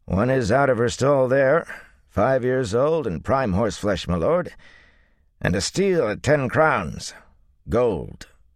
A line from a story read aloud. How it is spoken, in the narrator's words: he added blandly